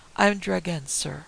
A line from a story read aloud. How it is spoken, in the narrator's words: he said